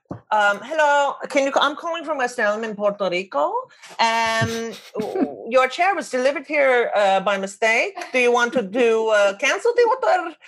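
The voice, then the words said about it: Puts on a caller's accent. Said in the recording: “I'm sure I'll get in trouble for the accent”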